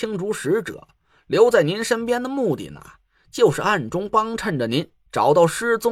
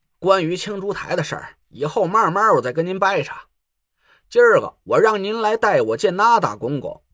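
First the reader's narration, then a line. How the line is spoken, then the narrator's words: Smiling. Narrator (Chinese): 蒋亮笑了笑，说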